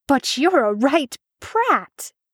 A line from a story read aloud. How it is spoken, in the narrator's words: He was a warlock, and he therefore spluttered